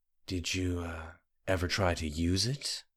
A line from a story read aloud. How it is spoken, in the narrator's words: whispered